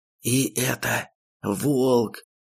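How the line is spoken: Crestfallen voice. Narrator (Russian): закончил упавшим голосом Соболь

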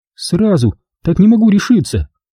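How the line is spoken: Timid answer. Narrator (Russian): робко ответила Довлятова

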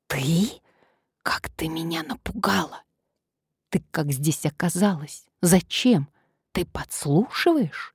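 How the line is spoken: Barely moving whisper. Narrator (Russian): прошептала Надежда, едва шевеля губами

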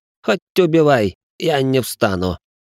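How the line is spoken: Groaning. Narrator (Russian): простонал

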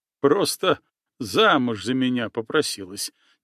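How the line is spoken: Quiet laughing chieftain. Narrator (Russian): негромко расхохотался атаман

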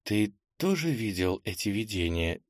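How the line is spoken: Quiet question. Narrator (Russian): тихо спросила Ира

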